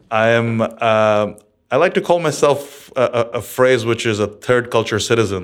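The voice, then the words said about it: American mid-Atlantic accent. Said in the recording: “you sound very American ... something like an American mid-Atlantic accent”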